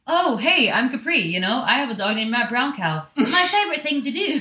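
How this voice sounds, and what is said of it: Very good put-on English accent. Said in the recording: “that is the best English accent I've ever heard in my life. That was so good.”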